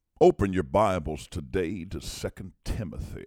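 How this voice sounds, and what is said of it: Exaggerated preacher voice. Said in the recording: “they had this quote-unquote preacher voice ... I'm in this kind of voice. I'm talking this kind of way. And then when I get up to preach”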